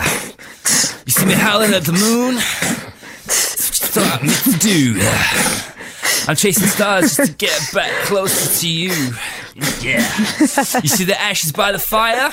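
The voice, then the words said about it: Breathy American gangster rap accent. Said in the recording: “Very breathy there ... It wasn't breathy. It was American gangster, but then there was like another accent coming in ... Maybe it's like Bolton mixed with American rapper.”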